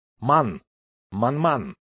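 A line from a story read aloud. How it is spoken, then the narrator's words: Rather rude declaration. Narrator (Russian): Он довольно грубо заявил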